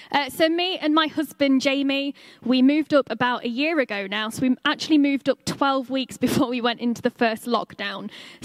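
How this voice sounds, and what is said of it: English accent, not Northeastern. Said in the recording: “You might be able to tell from my accent that I'm not originally from the Northeast ... we actually lived down in the Midlands in Lincoln”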